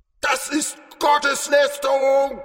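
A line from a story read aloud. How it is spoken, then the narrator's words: Indignant cry. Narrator (German): rief er empört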